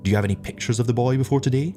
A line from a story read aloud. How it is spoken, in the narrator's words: asked the captain